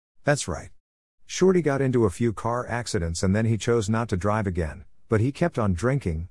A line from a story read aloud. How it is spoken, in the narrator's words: my father said